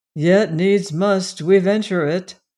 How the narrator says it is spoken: said I gloomily

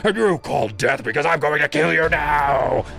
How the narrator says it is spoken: he roared

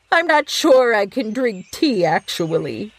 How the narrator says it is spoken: the friend said, almost starting to laugh

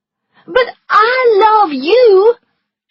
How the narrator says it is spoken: she cried

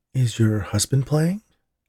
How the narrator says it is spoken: asked Gina

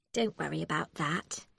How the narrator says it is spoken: Becky said sweetly

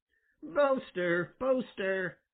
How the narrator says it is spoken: cried Peter Rabbit

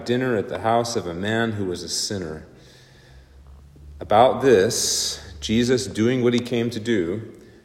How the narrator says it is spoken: they murmured

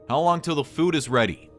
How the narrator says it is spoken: I yelled to Lance

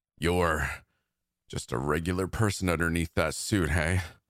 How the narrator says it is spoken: Jack said, panting

